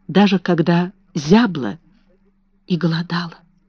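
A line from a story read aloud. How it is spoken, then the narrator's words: Spoken quietly. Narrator (Russian): тихо проговорила она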